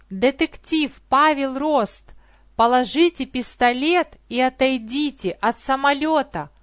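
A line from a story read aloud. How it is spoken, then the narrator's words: Police officer shouting. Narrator (Russian): крикнул полицейский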